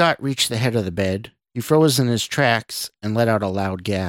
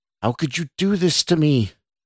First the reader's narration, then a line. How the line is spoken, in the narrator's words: the woman cried